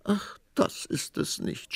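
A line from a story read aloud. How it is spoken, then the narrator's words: Sobbing queen. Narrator (German): schluchzte die Königin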